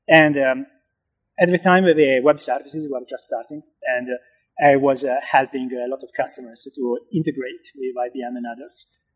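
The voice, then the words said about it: Italian-accented English. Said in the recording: “as you can hear from my accent ... back in Italy”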